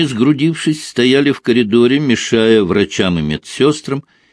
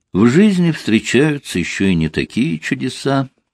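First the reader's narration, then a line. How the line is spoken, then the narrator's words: Quiet reply. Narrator (Russian): так же тихо отозвался он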